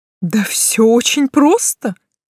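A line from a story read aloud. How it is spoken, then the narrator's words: Sudden laughing. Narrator (Russian): вдруг рассмеялся Густав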